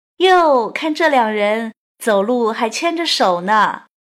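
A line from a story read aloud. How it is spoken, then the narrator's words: Loud teasing gossip. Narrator (Chinese): 那个长舌妇会不会大声调侃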